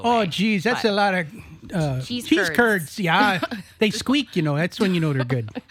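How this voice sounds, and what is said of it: Put-on Wisconsin or Canadian accent. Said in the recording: “Is it Canada or Wisconsin that we're doing right now? ... It's a kind of a generic upper... Cold people accent.”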